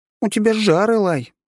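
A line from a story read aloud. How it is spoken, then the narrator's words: Cheerful report. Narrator (Russian): радостно доложила она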